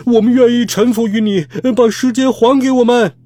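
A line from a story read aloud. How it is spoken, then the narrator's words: Group shouting. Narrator (Chinese): 他们一边走一边大喊道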